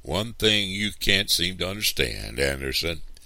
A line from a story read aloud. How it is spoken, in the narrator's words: Papa said